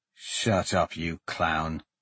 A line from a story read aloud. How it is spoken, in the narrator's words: Laramon muttered